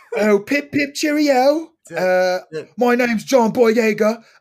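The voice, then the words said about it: Mock British accent. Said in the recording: “Let me hear the accent. ... That's exactly it.”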